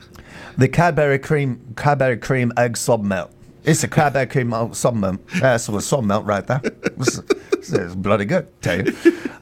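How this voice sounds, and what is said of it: Put-on English accent. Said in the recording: “Let's say this with an English accent. I want to hear this in an English accent. ... It doesn't make it sound better.”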